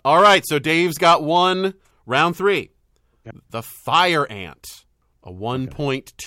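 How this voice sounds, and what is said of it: Usual voice. Nothing is said of it.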